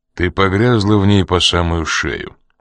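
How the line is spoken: Cold retort. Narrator (Russian): холодно возразил Коридон

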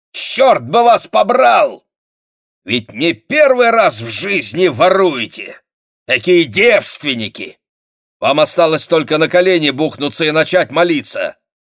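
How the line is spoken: Irritated shout. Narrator (Russian): раздраженно крикнул

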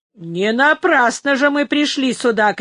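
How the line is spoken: Loud shouting fat driver. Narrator (Russian): кричал громче других один толстый погонщик вьючных ослов

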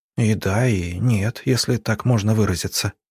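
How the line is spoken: Whisper. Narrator (Russian): прошептала Арина

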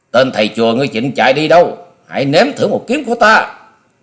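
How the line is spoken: Roar like hungry tiger. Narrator (Vietnamese): Long Điểu Kiếm Khách gầm như một con cọp đói

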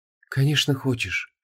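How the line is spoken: Sad. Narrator (Russian): грустно кивнула Инанна

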